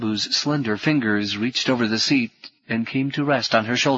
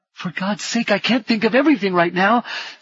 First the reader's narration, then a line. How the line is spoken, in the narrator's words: shouted Rini